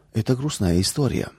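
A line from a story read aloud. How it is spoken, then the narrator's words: Old woman sighing. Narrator (Russian): вздохнула бабушка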